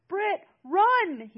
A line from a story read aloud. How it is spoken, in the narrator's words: he screamed again